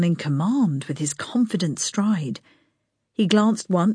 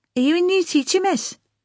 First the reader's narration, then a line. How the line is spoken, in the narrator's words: one of them piped up